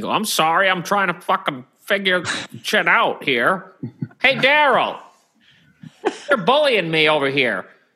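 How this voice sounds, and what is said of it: Imitation of a friend sounding angry. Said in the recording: “Does a pretty good job at imitating me being pissed off”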